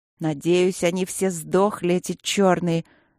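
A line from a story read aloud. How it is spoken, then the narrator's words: Spiteful hiss. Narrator (Russian): злобно прошипела я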